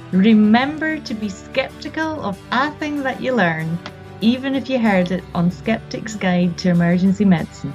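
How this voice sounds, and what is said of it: Scottish accent. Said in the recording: “I detected a little Scottish accent there in you, lassie... could you give us the SGEM tagline, but in your best Scottish accent?”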